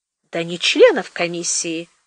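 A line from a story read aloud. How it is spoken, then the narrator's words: Gentle explanation. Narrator (Russian): мягко пояснил Сенечка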